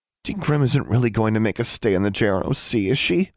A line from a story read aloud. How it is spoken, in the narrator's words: mumbled Anna